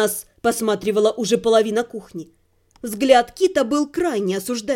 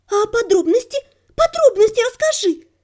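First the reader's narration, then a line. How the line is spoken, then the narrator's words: Near-shrieking, eager. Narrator (Russian): Едва не завизжала неугомонная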